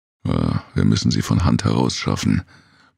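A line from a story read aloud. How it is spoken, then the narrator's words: Tired remark. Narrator (German): bemerkte müde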